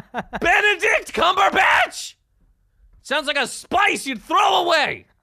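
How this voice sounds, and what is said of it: Yelling loudly. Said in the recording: “We're yelling at Benedict. First of all, let's yell at his parents!”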